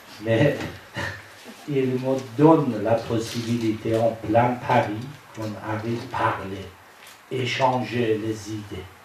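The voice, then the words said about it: Iranian-accented French. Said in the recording (French): “mon accent, il est témoin que je suis iranien”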